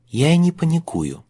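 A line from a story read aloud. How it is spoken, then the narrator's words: Calm remark. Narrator (Russian): спокойно заметила Элли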